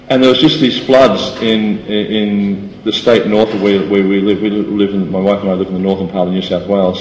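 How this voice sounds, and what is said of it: Australian accent. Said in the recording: “I come from Australia, which you probably all figured out by my accent.”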